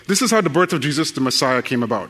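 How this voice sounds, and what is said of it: Very fast reading with an accent. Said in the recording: “I'm going to read through this very quickly ... your brain will start adjusting to my accent ... even though I'm speaking it very quickly”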